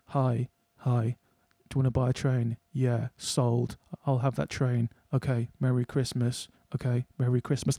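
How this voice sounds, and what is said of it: Imitates film characters' voices. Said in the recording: “this is my impression of Carol ... That's a scene straight out of Carol.”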